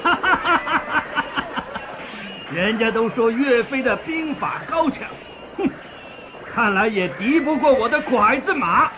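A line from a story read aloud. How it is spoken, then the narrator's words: Loud laughter. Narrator (Chinese): 金兵领袖兀竹哈哈大笑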